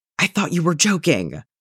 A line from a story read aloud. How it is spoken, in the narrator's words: Danny hisses